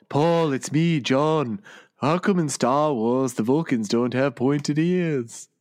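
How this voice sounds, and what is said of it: Imitates another person's voice. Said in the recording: “let me see if I can do a John Lennon voice ... Now you got it.”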